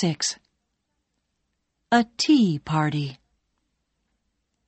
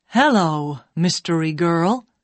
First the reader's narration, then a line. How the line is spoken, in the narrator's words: said Nick